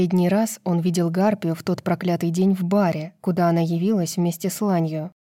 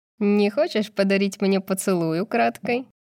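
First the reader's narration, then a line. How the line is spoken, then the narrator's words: Mocking remark. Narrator (Russian): Насмешливо бросила она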